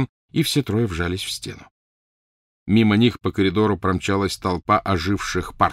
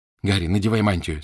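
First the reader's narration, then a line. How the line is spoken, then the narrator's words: Plain. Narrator (Russian): сказала Гермиона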